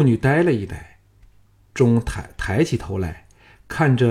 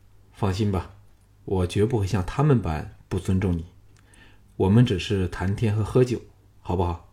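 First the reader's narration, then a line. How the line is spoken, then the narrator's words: Soft murmur, suppressed anger. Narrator (Chinese): 项少龙 胸口溢满了愤怨难平之气，凑到素女耳旁柔声说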